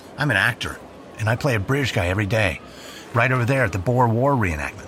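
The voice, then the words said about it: Irish accent. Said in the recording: “what's that accent? You're Irish, right? ... Yeah, indeed I am, from Tipperary.”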